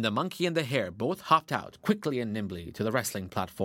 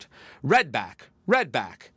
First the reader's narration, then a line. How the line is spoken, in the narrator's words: The deer, as umpire, called out